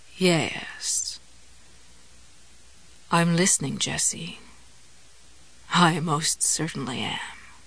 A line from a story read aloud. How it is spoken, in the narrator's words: he said, and in his new purring voice the word came out